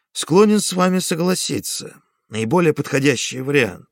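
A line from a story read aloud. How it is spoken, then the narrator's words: Calm reply. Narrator (Russian): спокойно ответил Онегин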